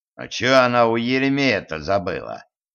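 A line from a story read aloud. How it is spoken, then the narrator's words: Sigh. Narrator (Russian): вздохнул Кощей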